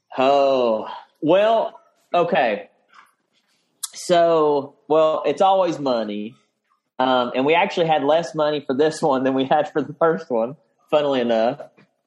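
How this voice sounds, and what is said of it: Southern American accent. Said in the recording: “I noticed you haven't lost your accent at all. ... the more you stay in the South, it just hangs on”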